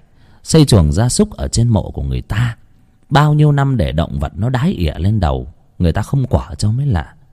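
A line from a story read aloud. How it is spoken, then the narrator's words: Soft sigh. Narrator (Vietnamese): Hiền khẽ thở dài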